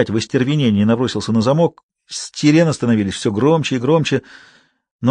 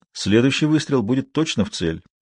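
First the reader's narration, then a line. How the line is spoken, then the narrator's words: Calm statement. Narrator (Russian): спокойно произнес он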